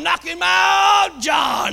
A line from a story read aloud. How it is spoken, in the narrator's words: they're hollering